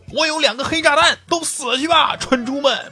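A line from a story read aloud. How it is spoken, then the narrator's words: Excited roar. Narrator (Chinese): 有个二逼…突然激动的大吼一声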